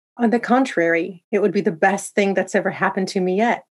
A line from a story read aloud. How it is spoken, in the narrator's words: said